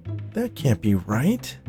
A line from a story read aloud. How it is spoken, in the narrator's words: moaned Kate